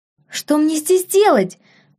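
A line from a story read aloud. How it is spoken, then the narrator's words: Young woman nearly shouting. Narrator (Russian): почти закричала девушка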